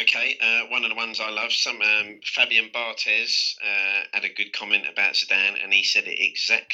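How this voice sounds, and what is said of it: Usual voice. Nothing is said of it.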